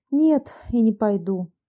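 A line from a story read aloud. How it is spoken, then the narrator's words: Sighing. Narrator (Russian): вздохнув, ответила Анна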